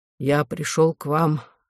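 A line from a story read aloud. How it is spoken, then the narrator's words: Hoarse voice. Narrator (Russian): сообщил он хриплым голосом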